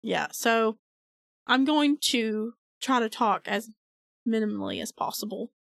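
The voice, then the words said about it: Sick, impaired voice. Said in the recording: “I'm sick again. I got strep for the second time in a month. So, my voice is, again, not as it should be.”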